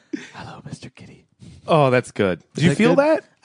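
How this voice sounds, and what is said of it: Soft ASMR-style whisper. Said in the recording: “Just whispering”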